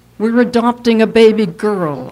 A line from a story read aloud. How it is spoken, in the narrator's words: I told nervously